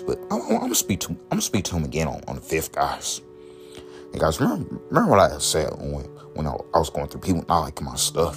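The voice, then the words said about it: Very deep, hard-to-understand voice. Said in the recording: “my voice being that ... My voice is that deep. It's hard for people to understand me.”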